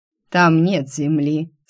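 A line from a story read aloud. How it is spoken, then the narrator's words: Calm. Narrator (Russian): спокойно произнес Фар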